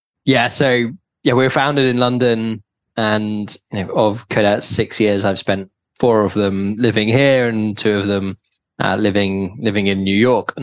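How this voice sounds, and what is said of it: British accent. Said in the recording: “anyone who's listening can tell by the accent that, you know, we both grew up in the UK”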